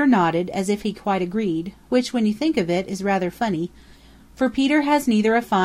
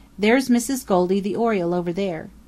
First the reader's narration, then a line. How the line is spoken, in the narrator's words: said he